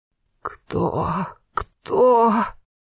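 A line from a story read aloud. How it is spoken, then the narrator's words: Hoarse rasp. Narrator (Russian): прохрипела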